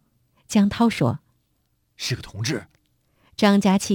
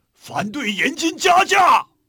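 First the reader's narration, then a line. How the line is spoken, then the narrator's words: Crowd roaring. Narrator (Chinese): 人们如雷一声吼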